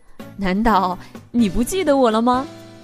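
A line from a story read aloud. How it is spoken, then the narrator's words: Laughing uncle. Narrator (Chinese): 叔叔笑着说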